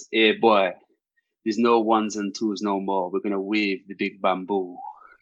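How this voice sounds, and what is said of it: Put-on West Indian accent. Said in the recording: “in a West Indian accent, which I'm going to try and do ... that's a pretty good accent.”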